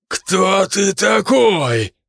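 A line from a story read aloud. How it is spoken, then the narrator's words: Roaring flame. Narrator (Russian): проревело пламя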